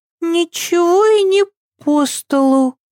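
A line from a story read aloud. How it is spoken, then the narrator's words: Uncertain objection. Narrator (Russian): возразила Ева неуверенно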